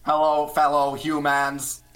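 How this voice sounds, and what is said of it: Robotic alien voice. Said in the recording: “They talk like when a 6-year-old is pretending what a robot sounds like. Like, yeah, not quite Microsoft Sam, but pretty close ... your standard, like, alien accent thing that every show goes for”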